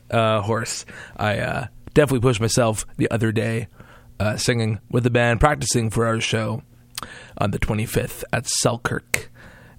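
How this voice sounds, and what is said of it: Hoarse, coarse voice. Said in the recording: “my voice is extremely coarse”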